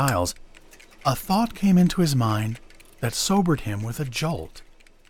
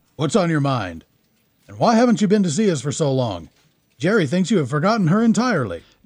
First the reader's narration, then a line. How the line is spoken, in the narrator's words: boomed the gruff old soldier